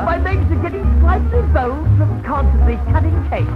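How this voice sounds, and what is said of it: Mock posh British accent. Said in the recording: “Pardon my British accent. Excuse my Mayfair drawl... Overlook my Oxford intonation”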